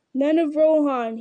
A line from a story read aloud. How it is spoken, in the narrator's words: he cried